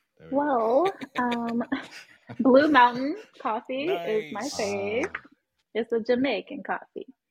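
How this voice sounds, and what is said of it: Terrible put-on accent. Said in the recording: “that's a terrible accent”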